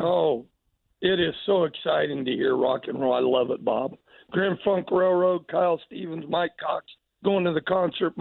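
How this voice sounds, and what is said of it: Hoarse, worn-out voice. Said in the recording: “Your voice is a wreck. Why do you yell and scream so much?”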